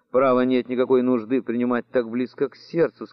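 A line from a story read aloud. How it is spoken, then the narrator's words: Plain. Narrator (Russian): сказала она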